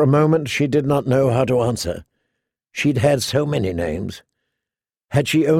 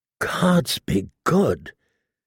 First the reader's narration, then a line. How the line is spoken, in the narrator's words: he said in a choked voice